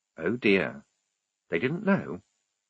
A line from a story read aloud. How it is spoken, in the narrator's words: said, very quietly